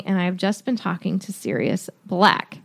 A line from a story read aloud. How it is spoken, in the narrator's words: said Dumbledore calmly